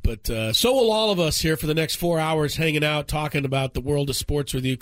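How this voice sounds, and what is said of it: Voice slightly off, sick-sounding. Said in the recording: “my voice is a little off today ... just a CC ... a common cold”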